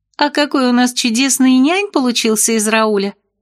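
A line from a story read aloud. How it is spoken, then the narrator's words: Giggled. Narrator (Russian): хихикнула Лесли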